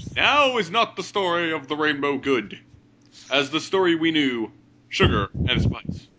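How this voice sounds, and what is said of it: Usual voice. Nothing is said of it.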